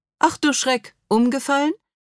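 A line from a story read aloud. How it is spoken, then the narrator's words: Cheerful laugh. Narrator (German): Jean-Jacques lacht fröhlich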